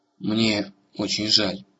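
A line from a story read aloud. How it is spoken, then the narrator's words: Very quiet. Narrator (Russian): сказала она, наконец, очень тихо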